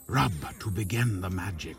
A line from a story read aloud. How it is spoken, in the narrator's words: Tom whispered